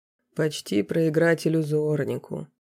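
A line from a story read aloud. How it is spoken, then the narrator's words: Displeased grumble. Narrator (Russian): недовольно проворчал незнакомый мне лысый профессор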